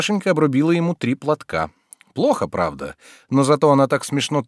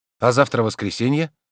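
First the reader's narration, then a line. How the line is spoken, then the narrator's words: Plain. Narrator (Russian): сказал он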